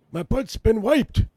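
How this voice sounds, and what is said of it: Joe Biden impression. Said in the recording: “your Biden impression”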